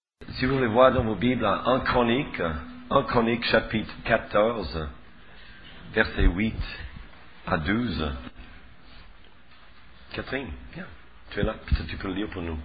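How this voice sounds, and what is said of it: Very thick accent. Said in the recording (French): “Tu as une diction un peu mieux que moi. Moi, j'ai un accent plus épais que le sirop d'érable.”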